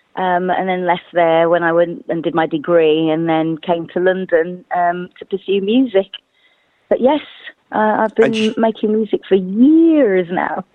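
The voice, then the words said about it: Softened Wolverhampton Midlands accent. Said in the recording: “You never lost your accent either, have you? ... No, it's softened. It was it was probably more pronounced when I first started, but it's still there. I'm still very much a Wolverhamptoner”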